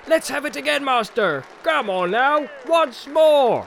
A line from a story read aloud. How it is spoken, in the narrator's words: began to shout